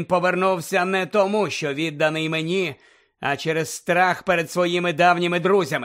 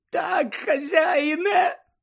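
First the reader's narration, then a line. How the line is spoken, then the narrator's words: Moaning. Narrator (Ukrainian): простогнав Червохвіст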